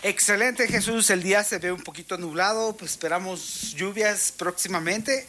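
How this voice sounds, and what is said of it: Radio announcer voice. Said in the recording (Spanish): “Él automáticamente hace voz de locutor ... Así en voz de locutor”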